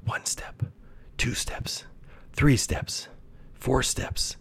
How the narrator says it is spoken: whispered to himself under his panting breath

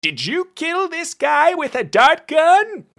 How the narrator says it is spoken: Brunt screamed

